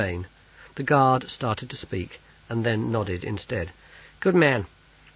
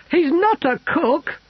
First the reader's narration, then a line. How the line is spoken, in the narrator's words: he wailed